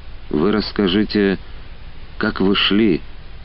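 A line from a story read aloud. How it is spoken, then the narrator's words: Dry, demanding. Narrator (Russian): сухим голосом потребовала она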